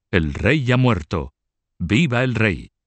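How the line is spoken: Exclaiming. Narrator (Spanish): Adam Egon, primer chambelán de la Casa Real, exclamó

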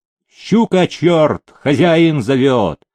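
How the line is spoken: Servant barking. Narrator (Russian): Слуга хожалый рявкнул

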